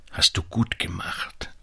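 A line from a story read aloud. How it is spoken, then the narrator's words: Quiet. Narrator (German): sagte leise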